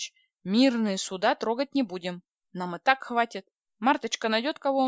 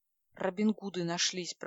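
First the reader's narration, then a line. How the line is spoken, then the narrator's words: Mumbling. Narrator (Russian): пробормотал Владлен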